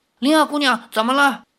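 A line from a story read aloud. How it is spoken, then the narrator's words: Hurried call. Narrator (Chinese): 李逍遥急忙叫道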